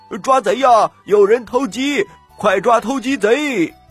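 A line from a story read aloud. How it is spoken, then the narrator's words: Group shouting while running. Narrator (Chinese): 长工们就举着棍子一边跑一边喊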